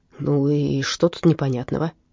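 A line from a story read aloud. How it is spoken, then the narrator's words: Deep sigh. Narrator (Russian): Инспектор глубоко вздохнул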